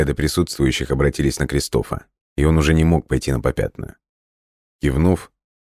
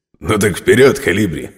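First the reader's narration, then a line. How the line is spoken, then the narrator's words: Chuckling. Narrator (Russian): хохотнул Матео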